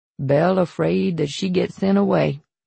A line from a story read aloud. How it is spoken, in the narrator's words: Papa said flatly